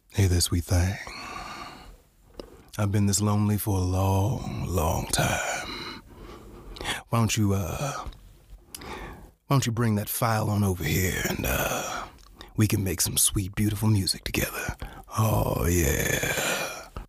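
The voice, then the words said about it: Deep, crooning seductive bass voice. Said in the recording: “my favorite cricket impression ... all crickets are Barry White to me”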